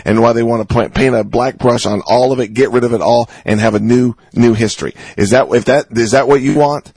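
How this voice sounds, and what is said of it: Yelling, loud impassioned speech. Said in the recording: “I'm yelling and screaming”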